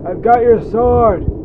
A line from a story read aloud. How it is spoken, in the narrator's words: He shouted, slurred, and punch drunk